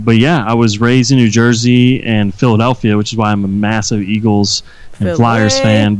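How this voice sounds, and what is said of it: East Coast American accent. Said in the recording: “my East Coast twang ... People say I can't say the word water”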